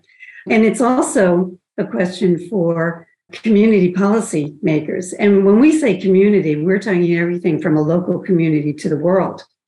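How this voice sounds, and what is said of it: Voice with a slight cold. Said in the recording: “I have a bit of a cold”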